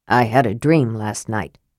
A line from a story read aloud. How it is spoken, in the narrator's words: Flint said gruffly